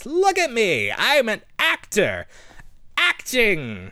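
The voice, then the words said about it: Jon Lovitz impression. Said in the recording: “He sounded like the critic. Or just John Lovitz in general.”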